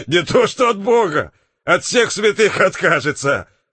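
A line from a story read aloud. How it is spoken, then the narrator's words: Laughing. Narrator (Russian): засмеялся Крутов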